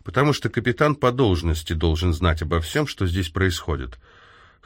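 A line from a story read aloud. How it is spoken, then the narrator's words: Dry interjection. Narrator (Russian): сухо вставила Хайди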